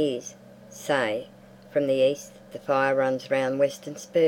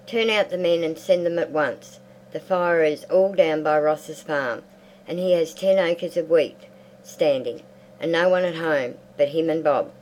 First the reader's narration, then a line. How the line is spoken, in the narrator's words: she cried